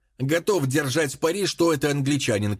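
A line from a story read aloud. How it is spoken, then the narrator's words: Shout. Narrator (Russian): крикнул Ральстон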